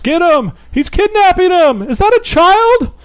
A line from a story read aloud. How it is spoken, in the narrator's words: the cries from the crowd all kind of scream up in chorus